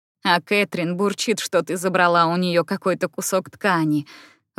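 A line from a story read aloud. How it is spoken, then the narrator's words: Laughing. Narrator (Russian): рассмеялась Фрэнсис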